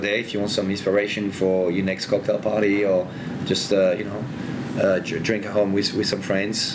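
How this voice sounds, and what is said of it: Mixed French and Australian accent. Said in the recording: “people used to joke that my accent is a mix of French and Australian”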